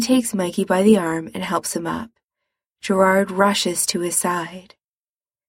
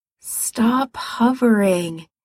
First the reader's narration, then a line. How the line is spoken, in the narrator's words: he said wearily